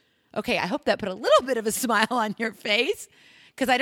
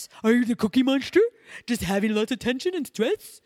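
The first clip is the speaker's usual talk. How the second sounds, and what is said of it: Not very good Cookie Monster voice. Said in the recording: “I don't make a very good Cookie Monster impression”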